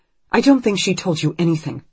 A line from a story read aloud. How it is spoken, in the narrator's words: Anne says sharply